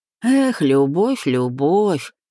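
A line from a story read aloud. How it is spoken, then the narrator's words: Singsong drawl. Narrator (Russian): нараспев протянул таксист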